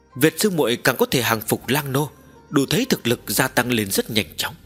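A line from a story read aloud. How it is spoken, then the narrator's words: Smiling. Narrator (Vietnamese): Trầm Vạn Vân mỉm cười nói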